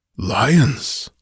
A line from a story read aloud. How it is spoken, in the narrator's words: muttered